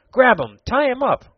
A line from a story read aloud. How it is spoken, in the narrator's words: cried Tom